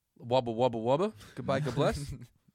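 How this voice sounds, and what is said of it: Put-on Australian accent. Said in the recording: “Can you give me what you just said in an Australian accent?”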